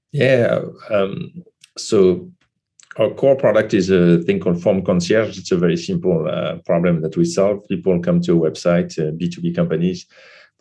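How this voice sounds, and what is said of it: Slight French accent in English. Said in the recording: “We're two native French speakers, so for our listeners, we would get the little accent ... It's going to sound funny a little bit”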